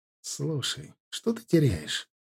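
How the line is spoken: Carefully neutral tone. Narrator (Russian): сказал я как можно более нейтральным тоном

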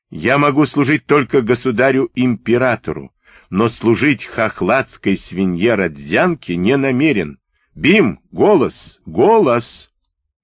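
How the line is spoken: Vicious dog barking. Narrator (Russian): злобно лаял дрессированный Бим

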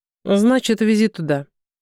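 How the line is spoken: Dry order. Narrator (Russian): сухо приказал Константин

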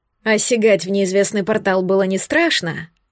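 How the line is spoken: Scoffing. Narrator (Russian): хмыкнул

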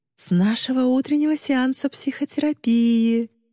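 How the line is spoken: Sing-song, as to toddler. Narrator (Russian): нараспев произнесла мисс Тыри, будто разговаривая с двухлетним ребенком

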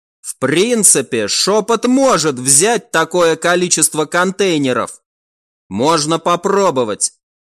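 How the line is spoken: Calmer reply. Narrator (Russian): уже более спокойно ответила Рен

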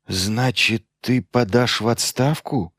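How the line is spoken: Plain. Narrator (Russian): спросил Лиан

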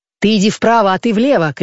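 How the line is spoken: Shouting. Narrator (Russian): кричал он

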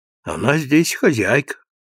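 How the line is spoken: Timid, sad, gentle. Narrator (Russian): робко прибавил Дон Лизи с грустной, ласковой улыбкой

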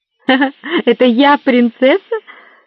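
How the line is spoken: Joyless laugh. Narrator (Russian): Свайнхильда невесело рассмеялась

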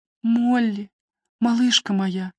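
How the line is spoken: Whisper. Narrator (Russian): прошептала Нэнси

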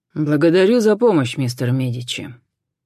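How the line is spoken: Dry. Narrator (Russian): сухо поблагодарил Джон

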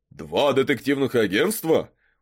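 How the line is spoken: Surprised exclamation. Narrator (Russian): удивленно воскликнул мэр

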